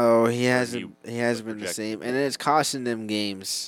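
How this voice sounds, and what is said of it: Usual voice. Nothing is said of it.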